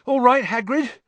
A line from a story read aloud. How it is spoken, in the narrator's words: he panted